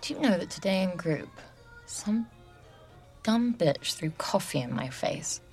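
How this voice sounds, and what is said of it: Mid-Atlantic accent, between British and American. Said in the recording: “You have the accent of a little girl who grew up somewhere between Heathrow and JFK.”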